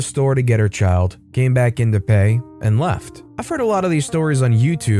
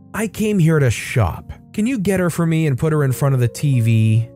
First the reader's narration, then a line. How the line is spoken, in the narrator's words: The entitled mom sighs heavily and says